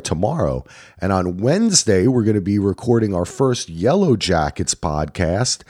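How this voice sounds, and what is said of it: Strained, unwell voice. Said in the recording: “hopefully my voice gets better”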